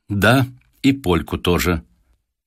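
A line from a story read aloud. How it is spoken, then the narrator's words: Restrained, embarrassed boy. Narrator (Russian): Мальчик вдруг густо покраснел, но ответил сдержанным тоном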